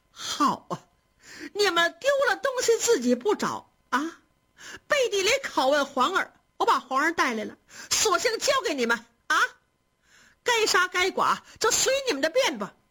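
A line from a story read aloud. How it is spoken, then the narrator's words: Crying while shouting. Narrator (Chinese): 赵姨娘 一边哭着一边喊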